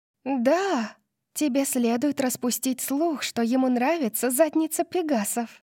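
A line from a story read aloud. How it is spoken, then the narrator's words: Manic whisper. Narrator (Russian): прошептала София с маниакальным блеском в глазах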